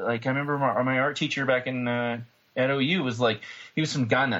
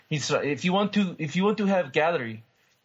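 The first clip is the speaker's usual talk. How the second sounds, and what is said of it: Weak attempt at African accent. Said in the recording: “Was that French or was that German? ... I can't do the African accent.”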